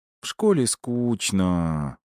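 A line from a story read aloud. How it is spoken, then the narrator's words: Drawling girl. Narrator (Russian): протянула девочка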